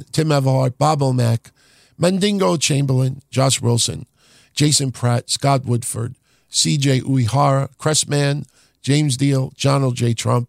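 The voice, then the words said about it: Voice sounds rough and bad. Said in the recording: “Wow, does my voice sound horrible.”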